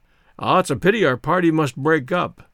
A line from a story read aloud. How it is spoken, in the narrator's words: exclaimed my grandfather